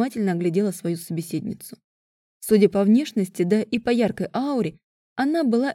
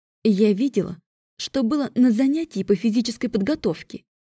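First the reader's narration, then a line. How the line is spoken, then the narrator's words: Hissing. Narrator (Russian): зашипела она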